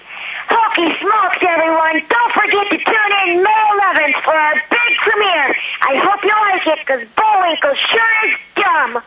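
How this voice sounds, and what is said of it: Rocky the squirrel cartoon voice. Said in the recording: “in your Rocky voice? ... Oh my gosh, that's brilliant. That is so fantastic.”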